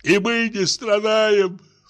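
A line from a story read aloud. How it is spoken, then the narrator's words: Sobbing, tearful. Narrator (Russian): всхлипывал генерал, давая волю слезам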